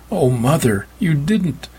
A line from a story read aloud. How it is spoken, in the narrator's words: Meg cried out